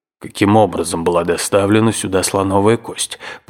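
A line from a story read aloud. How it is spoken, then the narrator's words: Irritated grumble. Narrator (Russian): пробурчал дядя, видимо, очень раздраженный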